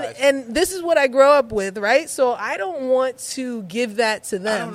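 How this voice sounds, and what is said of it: Usual voice. Nothing is said of it.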